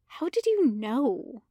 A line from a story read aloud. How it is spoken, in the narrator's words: she asks quietly